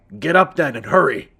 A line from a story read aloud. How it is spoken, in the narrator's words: barked